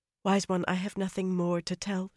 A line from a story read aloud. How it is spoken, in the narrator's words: she murmured